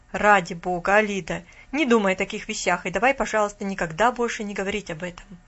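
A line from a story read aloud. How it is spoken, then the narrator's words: Exclaiming. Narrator (Russian): воскликнул мистер Сарнау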